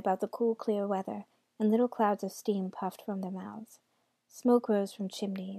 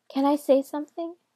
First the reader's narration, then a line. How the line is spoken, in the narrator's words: she asked timidly